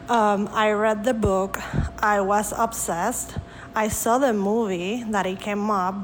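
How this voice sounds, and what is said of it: Speaks with an accent. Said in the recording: “My favorite thing is your accent”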